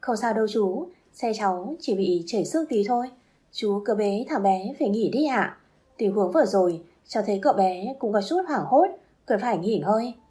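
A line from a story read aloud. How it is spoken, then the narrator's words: Gentle. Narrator (Vietnamese): nói nhẹ nhàng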